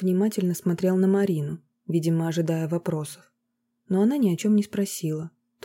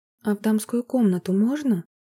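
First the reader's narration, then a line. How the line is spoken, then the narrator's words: Timid question. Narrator (Russian): Робко поинтересовалась она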